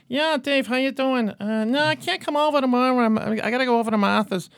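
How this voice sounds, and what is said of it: Imitated thick-accented, higher-pitched voice. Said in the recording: “he has the thickest accent in the family. So I'm always imitating. He's a little bit of a high pitch”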